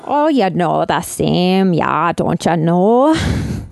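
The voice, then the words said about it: Put-on Minnesota accent. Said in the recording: “that's our accent ... We're from Minnesota, eh?”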